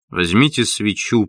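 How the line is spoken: Mumbling. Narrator (Russian): пробормотал он

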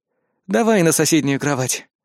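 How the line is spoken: Tired sigh. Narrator (Russian): вздохнул, ощущая усталость в руках

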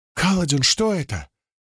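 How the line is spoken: Exclaimed. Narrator (Russian): воскликнула Сил

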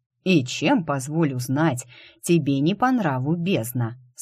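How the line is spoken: Plain, mage. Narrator (Russian): спросил маг

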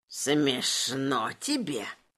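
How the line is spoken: Hissed. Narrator (Russian): прошипел лепрекон

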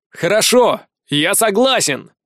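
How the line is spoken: Shouting. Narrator (Russian): крикнул я

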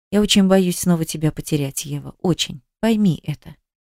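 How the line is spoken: Quiet. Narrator (Russian): тихо сказала

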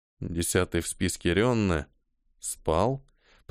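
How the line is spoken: Mutter. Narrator (Russian): пробормотал Ниэль

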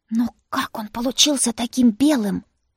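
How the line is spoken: Whispered, sister. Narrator (Russian): зашептала сестра

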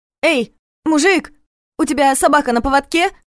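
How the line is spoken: Loud shout, forced bravado. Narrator (Russian): громко крикнула, чтобы хоть что-то спросить и снова выглядеть смелой

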